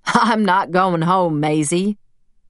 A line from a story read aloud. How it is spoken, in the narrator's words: he said, laughing